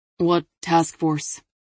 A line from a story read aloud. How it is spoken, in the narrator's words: Tatum growled